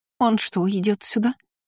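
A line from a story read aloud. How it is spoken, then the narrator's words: Squeak. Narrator (Russian): пискнула она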